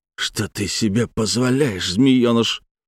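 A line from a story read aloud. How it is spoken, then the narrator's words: Hissing sergeant. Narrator (Russian): прошипел младший сержант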